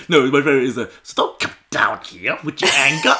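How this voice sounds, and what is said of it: Imitates another person's voice. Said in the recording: “That's a really good impression.”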